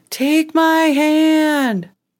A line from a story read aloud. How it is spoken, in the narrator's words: Her sister kept yelling